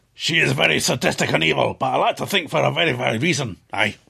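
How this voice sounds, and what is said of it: Silky Scottish accent. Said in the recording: “natural, silky Scottish accent ... That's silky Scottish voice.”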